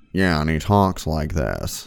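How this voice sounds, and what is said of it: Imitates another person's deep voice. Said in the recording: “he talks like that ... my voice isn't quite as deep, but it's close”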